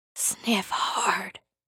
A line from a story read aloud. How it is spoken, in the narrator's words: T-Boom whispered